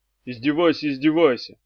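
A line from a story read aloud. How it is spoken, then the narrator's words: Glum. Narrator (Russian): уныло сказал Эдди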